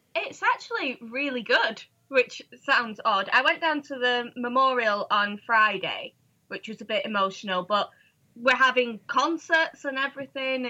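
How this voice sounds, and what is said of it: Manchester English accent. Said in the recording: “you're from Manchester, in case people didn't pick up on that with your accent.”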